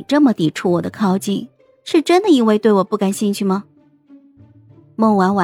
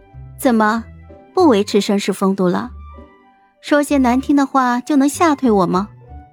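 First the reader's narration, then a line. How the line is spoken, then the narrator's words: Cool, calm, unsmiling. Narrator (Chinese): 孟婉婉笑意收敛了起来，淡淡开口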